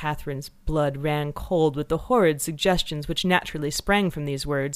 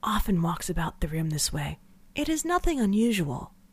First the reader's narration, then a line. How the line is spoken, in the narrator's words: she whispered